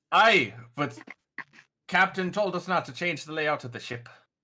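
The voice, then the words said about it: Put-on Scottish accent. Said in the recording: “I like your Scottish accent.”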